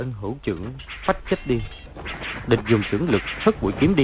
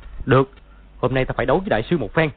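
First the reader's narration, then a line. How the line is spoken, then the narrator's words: Shout. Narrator (Vietnamese): quát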